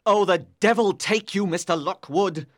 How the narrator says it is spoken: cried Heathcliff, because his hand was shaking

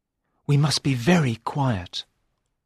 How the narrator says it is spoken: whispered Sir Richard

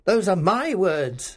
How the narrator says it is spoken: Scrooge cried

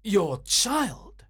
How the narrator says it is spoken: cried Grant Munro

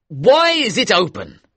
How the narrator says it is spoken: shouted

